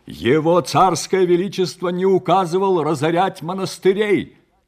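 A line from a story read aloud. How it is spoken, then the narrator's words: Loud interrupting monk. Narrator (Russian): Также громко перебил его чернец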